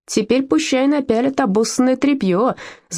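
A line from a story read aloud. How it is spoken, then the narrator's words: Girl screaming. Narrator (Russian): завопила одна девчонка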